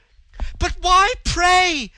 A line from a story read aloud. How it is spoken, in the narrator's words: screamed the girl, distracted, frantic with her bewildered terror